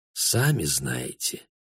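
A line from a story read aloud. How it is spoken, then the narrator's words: Quiet answer. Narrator (Russian): тихо ответил Бруно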